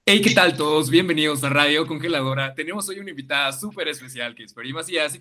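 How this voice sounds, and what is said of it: Radio announcer voice. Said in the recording (Spanish): “voz de locutor ... la voz del locutor sería algo como de este estilo”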